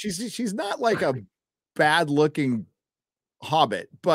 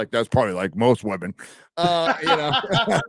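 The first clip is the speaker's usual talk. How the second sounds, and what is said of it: Imitates another person's voice. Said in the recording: “That was a great Ryan impression.”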